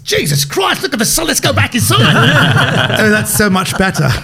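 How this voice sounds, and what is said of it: Put-on Australian accent, fairly good. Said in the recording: “the Australian accent... That's not bad, though, that accent... A good accent... Not bad at all.”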